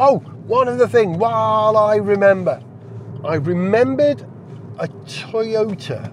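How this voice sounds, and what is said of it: Usual voice. Nothing is said of it.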